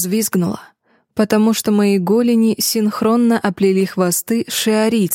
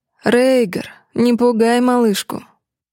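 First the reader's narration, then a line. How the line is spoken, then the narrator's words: Purring. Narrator (Russian): Мурлыкнул светловолосый шиариец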